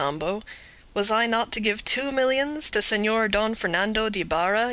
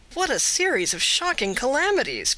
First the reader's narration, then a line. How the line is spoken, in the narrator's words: cried Candide